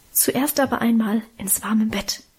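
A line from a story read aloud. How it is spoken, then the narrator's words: Mother's whisper. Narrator (German): flüsterte Mutter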